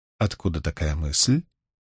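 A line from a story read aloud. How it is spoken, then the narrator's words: Even-toned question. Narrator (Russian): Суан ровным голосом спросила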